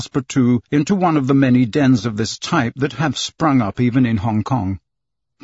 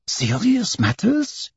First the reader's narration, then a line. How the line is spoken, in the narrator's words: exclaimed Passepartout